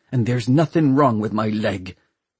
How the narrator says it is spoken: hissed Hester Shaw

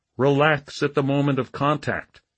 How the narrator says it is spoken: Once more, Stickles-sensei called out

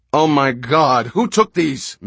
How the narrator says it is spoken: Mitch yelled at him

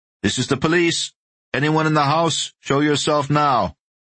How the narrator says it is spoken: Torres called out

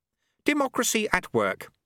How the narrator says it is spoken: said Lutse happily

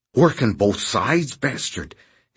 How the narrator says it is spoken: hissed Noonan right into his eyes

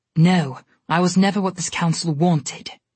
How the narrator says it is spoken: Esmia said sharply

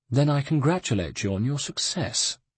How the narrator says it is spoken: said the nobleman, coldly

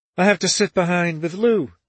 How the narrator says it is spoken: she said cheerfully

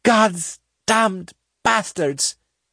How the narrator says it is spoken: Sinner choked in fury and anguish

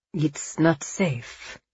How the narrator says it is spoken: Angelo said quietly

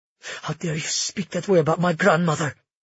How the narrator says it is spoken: She hissed

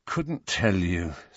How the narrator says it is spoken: said Harry wearily

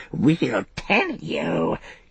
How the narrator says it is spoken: he croaked

